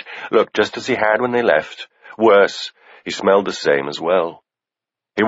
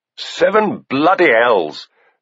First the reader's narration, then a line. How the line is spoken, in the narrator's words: spat